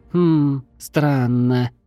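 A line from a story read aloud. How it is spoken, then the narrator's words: Drawn out. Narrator (Russian): протянула тушканчик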